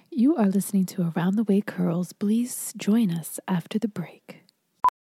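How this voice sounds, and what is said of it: Radio announcer voice. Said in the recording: “in your radio voice”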